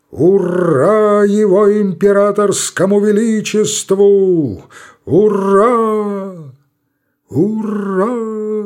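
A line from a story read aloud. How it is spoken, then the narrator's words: Powerful booming exclamation. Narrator (Russian): Могучим голосом восклицает Артобалевский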